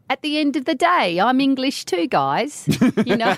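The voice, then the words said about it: Put-on English accent. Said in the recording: “cute little UK accents? ... I can do my accent”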